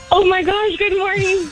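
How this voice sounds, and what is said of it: Excited, enthusiastic voice. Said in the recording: “do you sound so excited”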